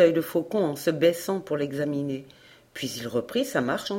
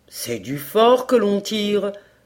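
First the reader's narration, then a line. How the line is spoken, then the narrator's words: Hunter's exclamation. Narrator (French): s'écria le chasseur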